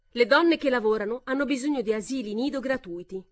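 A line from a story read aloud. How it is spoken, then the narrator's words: Shouted over applause. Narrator (Italian): gridò, quasi sommerse dagli applausi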